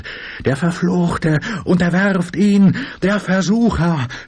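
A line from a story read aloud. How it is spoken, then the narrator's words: Another voice screaming. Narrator (German): schrie eine andere Stimme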